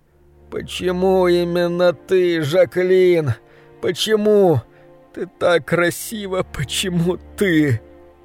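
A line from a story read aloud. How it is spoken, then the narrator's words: Sobbing. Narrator (Russian): Он прорыдал почти 10 минут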